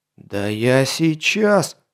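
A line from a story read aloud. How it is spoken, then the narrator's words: Growling with rising anger. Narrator (Russian): наливаясь гневом, зарычал маркиз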